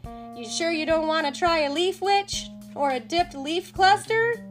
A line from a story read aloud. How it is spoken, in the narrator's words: Tank yells to Buddy